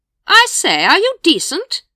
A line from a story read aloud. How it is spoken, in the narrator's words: Lady Ramkin boomed cheerfully